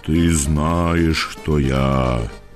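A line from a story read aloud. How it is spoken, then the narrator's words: Sepulchral voice. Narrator (Ukrainian): сказав я за могильним голосом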